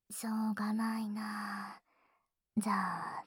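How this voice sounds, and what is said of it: Usual voice. Nothing is said of it.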